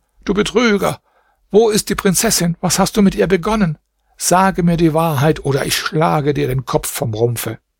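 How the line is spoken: Angry shout. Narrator (German): schrie er ihn an

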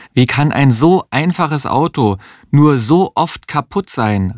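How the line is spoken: Exclaimed. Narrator (German): rief sie eines Tages aus

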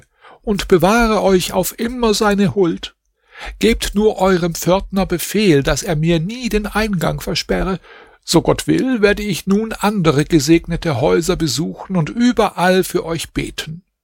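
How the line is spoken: Old woman calling out. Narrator (German): rief die Alte

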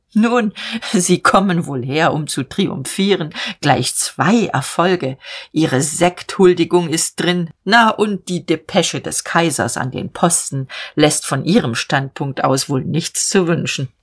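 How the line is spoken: Short laugh, then speaking. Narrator (German): lachte kurz und sagte

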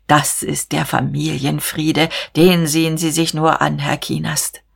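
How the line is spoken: Deep voice. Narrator (German): sagte mit tiefer Stimme

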